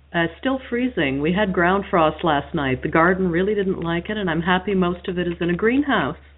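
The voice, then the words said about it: French-Canadian accent. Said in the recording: “that beautiful French-Canadian accent”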